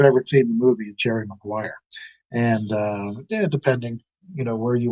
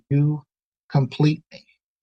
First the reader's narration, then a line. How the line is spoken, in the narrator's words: very tenderly, he very earnestly he looks at Renée Zellweger and he says